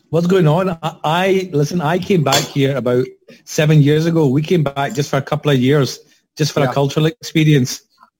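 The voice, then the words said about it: Glasgow Scottish accent. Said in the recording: “you've got a Glasgow twang there.”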